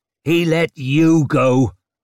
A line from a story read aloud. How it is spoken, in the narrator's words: snarled Leo